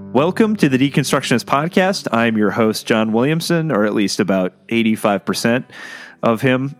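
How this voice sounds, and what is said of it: Slightly hoarse voice. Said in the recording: “I'm a little under the weather, so if you notice my voice is a little hoarse”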